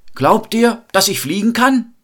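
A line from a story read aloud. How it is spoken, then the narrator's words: Calling out to a crowd. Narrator (German): rief er in die Menge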